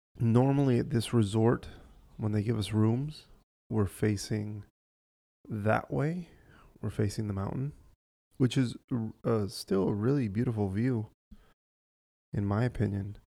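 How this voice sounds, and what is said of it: Quiet, close-mic sultry voice. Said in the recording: “I'm kind of talking a little quiet and holding the microphone closer to my mouth ... my sultry, sexy voice”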